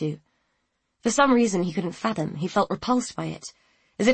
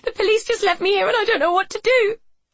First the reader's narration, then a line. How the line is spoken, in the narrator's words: she sobbed